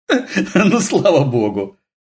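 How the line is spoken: Laughing. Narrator (Russian): рассмеялась Татьяна

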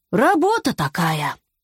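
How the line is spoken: Sighing. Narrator (Russian): вздохнул Питер

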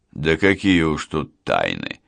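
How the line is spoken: Joyless snort. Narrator (Russian): невесело хмыкнул он

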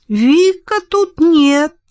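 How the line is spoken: Thin little voice. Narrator (Russian): наконец ответил тот тоненьким голоском

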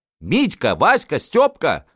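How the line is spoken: Noblewoman shouting. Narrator (Russian): кричала княгиня

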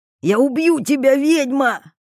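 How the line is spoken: Yelling. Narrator (Russian): орал Тарас

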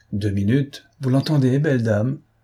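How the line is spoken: Laughing. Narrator (French): reprit en riant l'armateur

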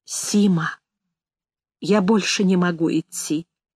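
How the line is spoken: Sudden quiet words. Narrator (Russian): вдруг тихо сказал Игорь

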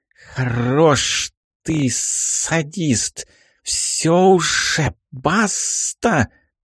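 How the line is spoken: Hissing in unison. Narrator (Russian): шипела в унисон товарищу Баба-Яга из своего угла

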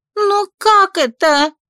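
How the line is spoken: Furious exclamation. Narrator (Russian): яростно воскликнула та

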